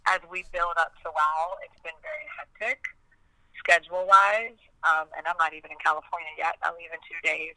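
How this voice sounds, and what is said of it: Husky, nearly lost voice. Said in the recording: “excuse my voice. It's nearly gone ... I'm just losing my voice ... the Demi Moore huskiness”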